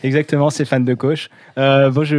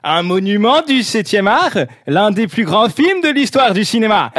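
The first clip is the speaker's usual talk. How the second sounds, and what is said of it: Reading in a put-on accent. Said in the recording (French): “je vais prendre un petit accent, du coup, hein, pour lire comme d'habitude ... J'ai pas compris l'accent, moi.”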